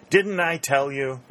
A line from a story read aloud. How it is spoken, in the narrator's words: exclaimed Pennington